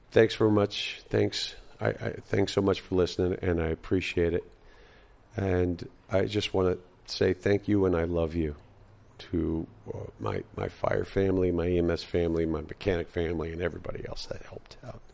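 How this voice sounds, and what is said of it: Hoarse voice. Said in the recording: “My voice is still hoarse from singing”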